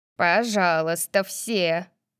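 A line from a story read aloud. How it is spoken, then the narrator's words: Shout. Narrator (Russian): крикнул Персей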